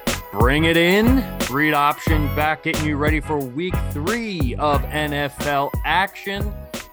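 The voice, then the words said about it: Sports announcer voice. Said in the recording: “went into like an announcer voice”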